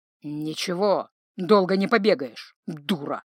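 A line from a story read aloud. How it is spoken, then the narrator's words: Gruff grunt. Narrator (Russian): буркнул он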